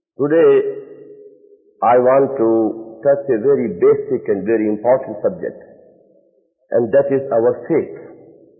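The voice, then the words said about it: Non-native English accent. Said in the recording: “I am not good at English and I can't speak it fluently ... my accent and pronunciation funny”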